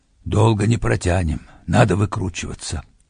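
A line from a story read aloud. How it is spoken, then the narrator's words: Whispered. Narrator (Russian): шепнул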